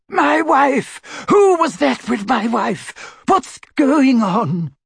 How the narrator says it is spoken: Confused, Yaxley looked from Harry to the punched wizard, while the real Reg Cattermole screamed

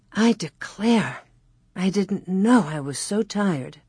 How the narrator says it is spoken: Ma sighed peacefully

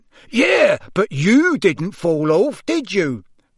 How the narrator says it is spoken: roared Amos genially

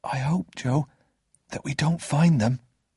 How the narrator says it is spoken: I whispered in his ear

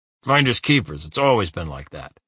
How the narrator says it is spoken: he growled

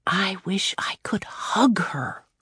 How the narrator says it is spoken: Claudia whispered

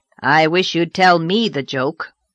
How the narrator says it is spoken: said Marilla a little grimly

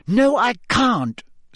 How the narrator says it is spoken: snapped Hermione

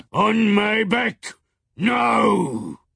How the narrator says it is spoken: roared to the children

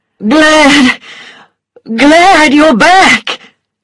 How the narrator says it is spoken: he cried

